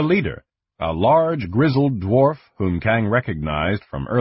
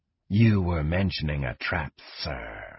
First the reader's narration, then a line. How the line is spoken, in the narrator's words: Slith whispered